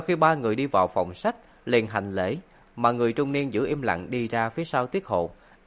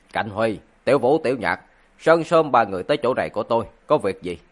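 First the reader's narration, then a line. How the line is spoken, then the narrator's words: Cold. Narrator (Vietnamese): ánh mắt lạnh lùng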